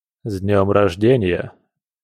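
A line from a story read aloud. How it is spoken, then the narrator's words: Snort. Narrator (Russian): Хмыкнул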